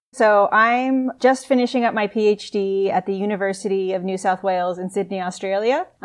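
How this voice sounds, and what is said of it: American accent, not Australian. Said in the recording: “if you can tell by my accent, I'm not Australian. I actually grew up in Albuquerque, New Mexico”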